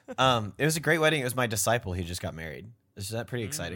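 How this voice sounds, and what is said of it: Lower, deeper voice than usual. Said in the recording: “my voice is a little bit lower, a little bit deeper today”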